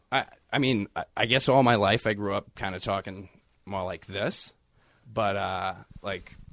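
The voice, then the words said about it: Boston accent. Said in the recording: “Boston accent”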